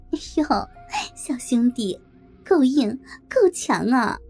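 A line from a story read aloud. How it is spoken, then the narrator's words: Flirtatious laughing. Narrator (Chinese): 梅姐浪笑着说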